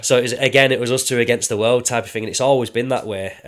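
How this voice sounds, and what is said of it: Lancashire English accent. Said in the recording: “Bolton's very sort of Lancashire type, as you can tell with me now”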